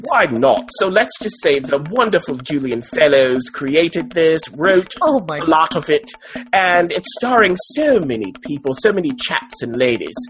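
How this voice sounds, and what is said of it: Put-on English accent. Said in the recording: “Are you going to do this whole thing in an English accent?”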